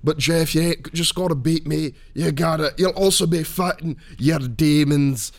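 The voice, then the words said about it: Poorly done put-on accent. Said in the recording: “that accent work is terrible”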